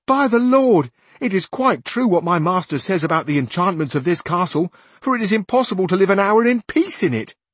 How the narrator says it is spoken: Sancho exclaimed

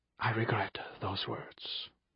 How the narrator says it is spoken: he whispered

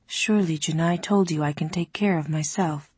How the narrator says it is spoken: Ali said very gently

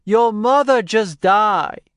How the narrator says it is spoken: he'd yell

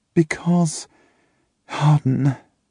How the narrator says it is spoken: she sighs

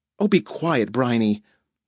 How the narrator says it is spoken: Natalie said in a choked voice

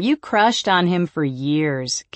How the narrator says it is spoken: Kayla says, laughing

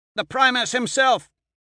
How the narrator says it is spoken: Alexander shouts above the wind

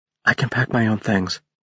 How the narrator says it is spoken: she whispered

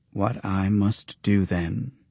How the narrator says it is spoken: she said slowly

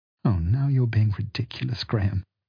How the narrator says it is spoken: sighed Sue

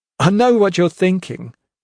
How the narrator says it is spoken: he said with a little laugh

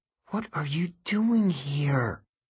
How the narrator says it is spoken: I whispered to Millard

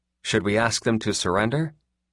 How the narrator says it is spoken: Alvarado asked softly

